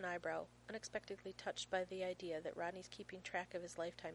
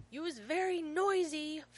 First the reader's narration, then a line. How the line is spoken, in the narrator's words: Finn yells from his bedroom